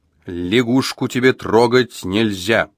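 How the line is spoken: Stern, clipped. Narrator (Russian): строго отчеканил

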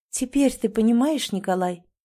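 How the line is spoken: Soft, icy, triumphant. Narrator (Russian): Ее голос прозвучал почти мягко, спокойно, но в этой мягкости была ледяная безжалостность, была победа

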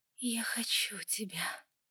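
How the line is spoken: Whispered. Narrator (Russian): прошептала она снова

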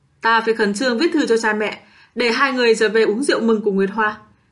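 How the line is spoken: Loud laugh. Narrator (Vietnamese): Đinh Triệu Huệ cười to

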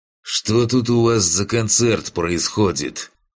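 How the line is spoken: Grumbled. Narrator (Russian): проворчал Фантик

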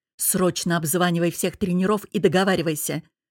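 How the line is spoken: Barked. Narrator (Russian): рявкнул напоследок

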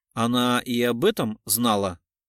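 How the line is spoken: Plain. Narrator (Russian): спросил Кричко

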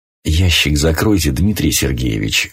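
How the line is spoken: Ingratiating request. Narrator (Russian): вкрадчиво попросил Синявин

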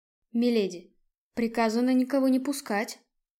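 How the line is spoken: Quiet conspiratorial whisper. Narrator (Russian): тихим заговорщическим шепотом произнес знакомый оживший, стоящий в карауле

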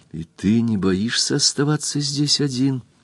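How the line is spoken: Whispered. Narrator (Russian): прошептала Кристин

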